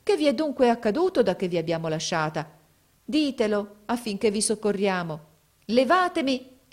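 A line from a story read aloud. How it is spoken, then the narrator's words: Exclamation. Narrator (Italian): esclamò essa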